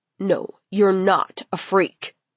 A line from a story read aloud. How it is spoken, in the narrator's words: Amo snapped